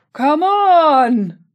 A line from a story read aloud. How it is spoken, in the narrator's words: he shouted to the others